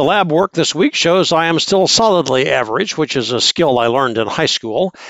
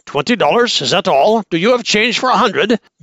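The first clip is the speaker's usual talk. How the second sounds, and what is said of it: Put-on Lebanese accent. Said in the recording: “Lebanese accent”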